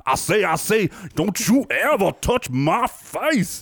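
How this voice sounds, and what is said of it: Exaggerated deep Southern cartoon accent. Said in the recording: “She went deep on that Southern accent there... Sounded ridiculous... Foghorn Leghorn.”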